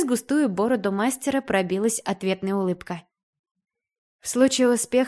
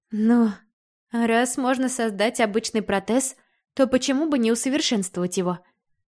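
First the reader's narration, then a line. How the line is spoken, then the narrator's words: Tired, smiling. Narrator (Russian): Устало улыбнулась я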